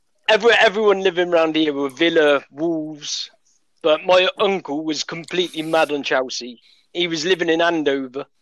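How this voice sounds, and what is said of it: West Midlands English accent. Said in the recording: “been living in the West Midlands... With the accent, you can tell.”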